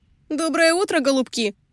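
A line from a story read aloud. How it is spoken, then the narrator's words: Shouted. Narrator (Russian): крикнула Лизи в открытое пассажирское окно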